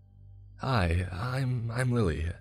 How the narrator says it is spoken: the woman said in a nervous tone

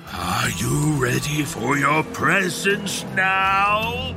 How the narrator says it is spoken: He groans

